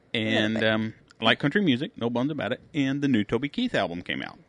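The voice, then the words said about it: Redneck-sounding accent. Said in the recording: “most people can tell by my accent, is that I'm a redneck”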